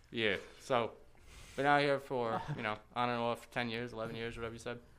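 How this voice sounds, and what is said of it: New York accent. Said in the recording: “In your voice, you're still out there ... you can hear that accent ... New York ... Got that Vinny voice”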